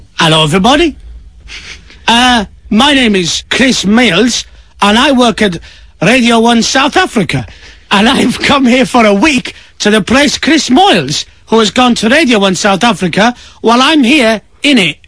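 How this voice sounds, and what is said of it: Convincing put-on South African accent. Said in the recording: “That's a really very convincing South African accent”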